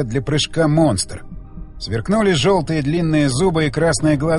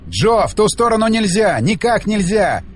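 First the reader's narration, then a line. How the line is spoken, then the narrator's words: Shouting into radio. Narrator (Russian): заорал я в рацию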